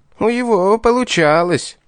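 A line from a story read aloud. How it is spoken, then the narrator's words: Envious grumble. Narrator (Russian): завистливо пробурчал Визгун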